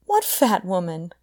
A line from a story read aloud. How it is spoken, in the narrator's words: Connie cried